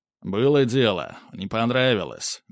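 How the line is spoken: Wry snort. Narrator (Russian): Михаил хмыкнул

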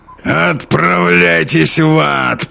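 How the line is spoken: Growling. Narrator (Russian): прорычал полковник

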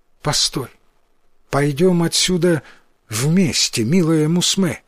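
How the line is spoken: Affectionate. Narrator (Russian): произнес он, ласково

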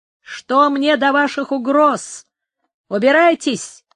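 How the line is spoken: Shouted. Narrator (Russian): крикнул Пригонера

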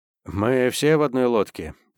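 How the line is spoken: Sad. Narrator (Russian): печально проговорил

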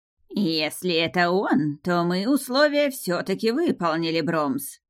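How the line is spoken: Nasal creature's voice. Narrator (Russian): гнусавая кикимора с бородавкой

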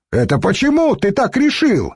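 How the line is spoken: Yelling. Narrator (Russian): заорал страж

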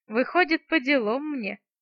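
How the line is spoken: Laughing. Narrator (Russian): рассмеялась я

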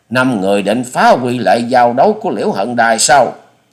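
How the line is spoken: Loud shout. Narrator (Vietnamese): Chủ nhân Ban Quốc hét to

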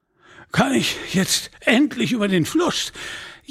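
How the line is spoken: Monk gasping breathlessly. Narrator (German): japste der Mönch

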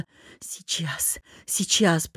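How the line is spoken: Mumbled. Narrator (Russian): пробормотал

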